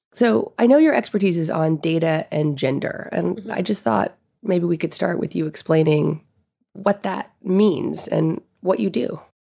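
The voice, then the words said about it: Hoarse, raspy voice. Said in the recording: “I was recovering from strep throat when we spoke, so my voice was a little hoarse during our conversation ... my raspy voice”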